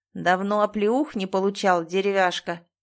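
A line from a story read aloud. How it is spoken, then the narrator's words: Man growling. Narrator (Russian): прорычал мужик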